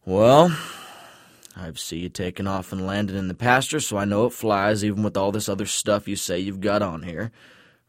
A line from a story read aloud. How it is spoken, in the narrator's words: Earl grumbles